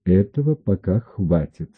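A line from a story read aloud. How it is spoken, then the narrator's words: Calm. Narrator (Russian): сказал я спокойно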